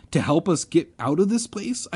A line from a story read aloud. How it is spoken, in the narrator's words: I cried